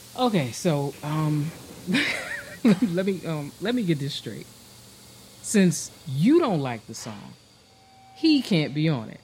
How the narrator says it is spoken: He held back his laughter, said

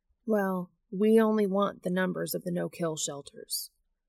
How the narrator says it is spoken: Sam says flatly

